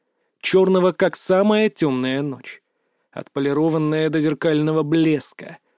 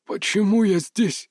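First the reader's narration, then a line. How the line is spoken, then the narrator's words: Hoarse faltering whisper. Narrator (Russian): Его голос сорвался на хриплый шепот, будто язык отказывался повиноваться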